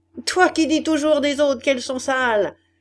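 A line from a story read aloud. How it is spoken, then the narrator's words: Shouting, woman. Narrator (French): criait la Levaque à la Pyrone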